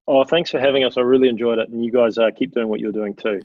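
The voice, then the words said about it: New Zealand accent. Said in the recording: “never lose that Kiwi accent”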